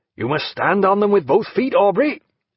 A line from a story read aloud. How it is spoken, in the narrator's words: he said without a gasp